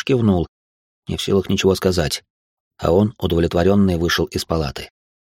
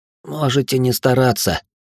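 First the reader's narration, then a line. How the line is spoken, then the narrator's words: Hoarse, slurred reply. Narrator (Russian): с трудом ворочая языком, хрипло ответил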